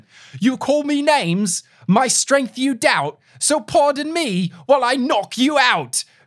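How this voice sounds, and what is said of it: Bad put-on British accent. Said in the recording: “I will recite this in a garbage British accent.”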